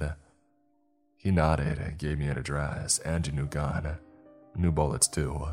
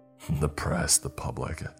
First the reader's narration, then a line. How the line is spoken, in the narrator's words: he said scornfully